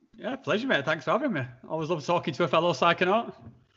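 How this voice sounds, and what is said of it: Guttural Northern English accent. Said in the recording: “a fellow Northern English lad, too ... my accent's beginning to drop down back into my sort of, like, guttural... house, like Game of Thrones-esque northern tone”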